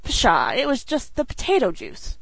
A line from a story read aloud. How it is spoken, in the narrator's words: scoffed Dan